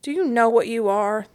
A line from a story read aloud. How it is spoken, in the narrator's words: sleepily asked